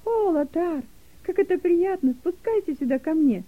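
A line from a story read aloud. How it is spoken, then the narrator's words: Joyful call. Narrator (Russian): радостно позвала Дилека Лотара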